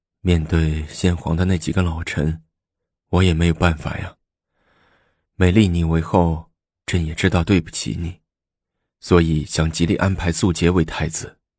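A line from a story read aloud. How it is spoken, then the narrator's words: Long sigh. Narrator (Chinese): 李治长叹了口气说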